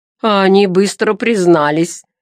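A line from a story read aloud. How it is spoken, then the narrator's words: Chuckling, freak. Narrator (Russian): хохотнул уродец Вавилий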